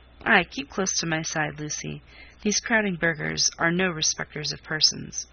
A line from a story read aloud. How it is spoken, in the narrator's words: John seemed unconsciously to sanction the preference by looking down and saying in his kind voice